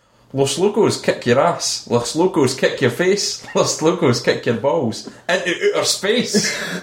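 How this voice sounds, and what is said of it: Put-on Scottish accent. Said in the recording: “It's just in a Scottish accent”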